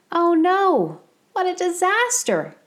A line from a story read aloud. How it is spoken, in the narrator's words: his neighbors cried